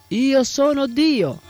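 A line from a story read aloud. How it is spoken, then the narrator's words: Angry disgusted shout while running. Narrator (Italian): disgustato e incollerito gridando mentre correva giù per la strada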